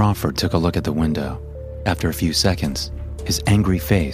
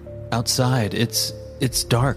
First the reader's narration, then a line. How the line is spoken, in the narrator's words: I stuttered